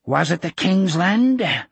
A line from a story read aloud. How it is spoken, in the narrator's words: Osmond panted